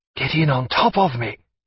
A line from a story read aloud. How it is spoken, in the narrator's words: whispered through the sheets